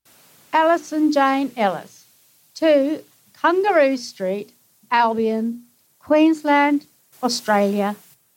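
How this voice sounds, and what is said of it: Australian accent. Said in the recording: “You're an Australian? ... Can't you tell from the accent?”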